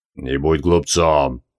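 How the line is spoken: Cold. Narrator (Russian): холодно произнес Гази Мунтазир

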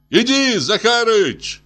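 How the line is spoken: Shouting. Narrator (Russian): кричал Колька

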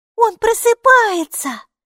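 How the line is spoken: Joyful gasp. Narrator (Russian): Алиса радостно ахнула

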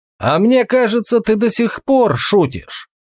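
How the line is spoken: Shouted. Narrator (Russian): крикнул Толгрим

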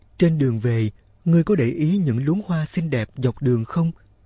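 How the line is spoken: Sympathetic voice. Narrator (Vietnamese): Người gánh nước nói bằng giọng cảm thông

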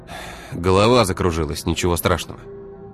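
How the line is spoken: Sighing. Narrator (Russian): вздохнул он

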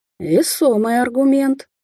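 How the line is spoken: Hoarse. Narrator (Russian): хрипло заметил он

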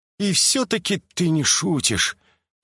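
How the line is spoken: Resigned sigh. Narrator (Russian): обреченно вздохнул Джин Хёк

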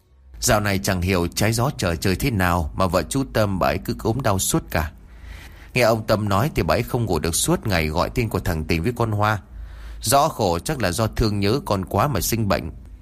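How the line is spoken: Sighing. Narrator (Vietnamese): Bà Lan thở dài rồi nói

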